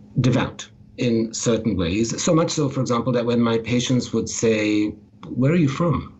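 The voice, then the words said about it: Slight, hard-to-place foreign accent. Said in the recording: “I have a bit of an accent ... my accent might be hard to place ... it's a little hard to place”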